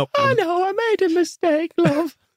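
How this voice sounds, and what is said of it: Voice sounding like an old lady. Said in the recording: “I don't know why I sound like an old lady now.”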